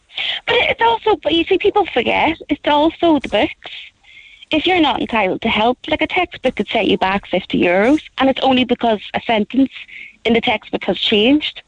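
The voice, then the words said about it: Northern Irish Belfast accent. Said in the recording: “you can tell by my accent, I come from Belfast”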